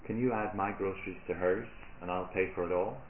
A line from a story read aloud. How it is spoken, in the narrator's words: smiling, she … quietly said